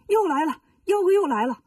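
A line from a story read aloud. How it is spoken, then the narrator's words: Urgent shout. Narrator (Chinese): 悟空喊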